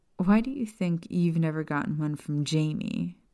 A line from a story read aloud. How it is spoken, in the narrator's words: Maya asked Lily with a chuckle